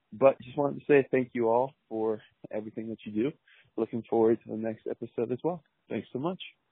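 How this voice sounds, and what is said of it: Smooth radio-style voice. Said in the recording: “You got a good radio voice too, Mr. 630.”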